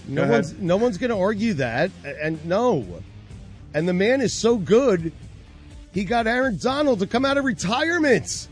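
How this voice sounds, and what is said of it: Loud yelling voice. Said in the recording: “I'm yelling at you guys ... Stop yelling at me!”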